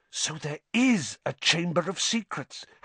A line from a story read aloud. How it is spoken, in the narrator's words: Harry whispered